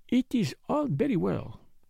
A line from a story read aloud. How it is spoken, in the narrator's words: he murmured to himself